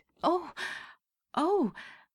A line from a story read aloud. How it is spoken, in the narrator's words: Della leaped up like a singed cat and cried